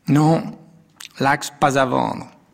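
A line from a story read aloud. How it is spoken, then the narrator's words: Plain answer. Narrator (French): répondit le Turc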